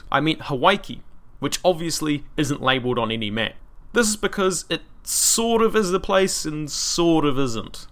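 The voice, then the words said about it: New Zealand accent. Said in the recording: “that Kiwi accent is spitting out consonants to replace the vowels it swallows ... the microphone exaggerates my accent.”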